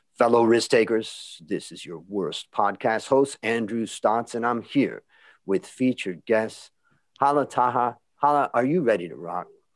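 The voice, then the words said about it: Deep polished radio-announcer voice. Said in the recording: “What a great radio voice you have.”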